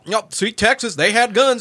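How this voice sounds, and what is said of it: Put-on Texas accent. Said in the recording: “Stop with the accent, because not everybody with that accent is ignorant.”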